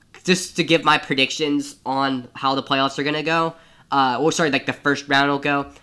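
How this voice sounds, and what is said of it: Voice in poor condition. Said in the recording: “My voice is really, really bad.”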